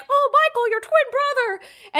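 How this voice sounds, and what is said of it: Good Mickey Mouse cartoon voice. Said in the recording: “your Mickey Mouse voice was this good ... That's a good Mickey Mouse impression.”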